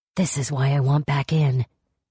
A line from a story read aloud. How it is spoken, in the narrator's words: he muttered